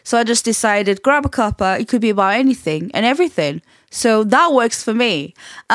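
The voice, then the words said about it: Portuguese accent mixed with Yorkshire. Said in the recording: “by the accent, you probably are wondering ... what is that accent? I cannot place it ... I'm Portuguese and I have lived in Leeds, West Yorkshire for a long time ... I'm one of those people that picks up accents really, really easily”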